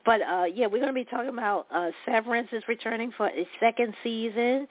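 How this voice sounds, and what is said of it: Hoarse, fading voice. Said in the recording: “Excuse me, I was just fine when I started the radio show. Now I'm losing my voice”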